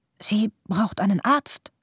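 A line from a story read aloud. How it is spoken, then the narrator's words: Whisper into silence. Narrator (German): flüsterte Pavo in die Stille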